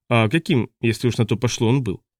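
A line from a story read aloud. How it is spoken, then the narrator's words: Plain. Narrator (Russian): спросил Гру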